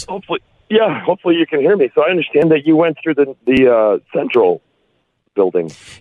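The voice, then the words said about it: Hoarse, partly lost voice. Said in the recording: “half my voice is gone”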